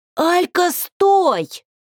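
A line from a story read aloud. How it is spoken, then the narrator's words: Frantic scream. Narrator (Russian): Истошно закричала я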